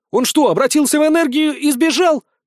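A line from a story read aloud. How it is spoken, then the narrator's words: Yelled. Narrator (Russian): заорал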